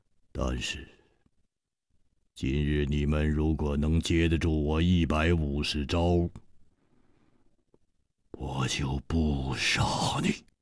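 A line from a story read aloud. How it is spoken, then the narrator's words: Cold, murderous. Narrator (Chinese): 他的目中忽然射出了一股杀机，冷冷地说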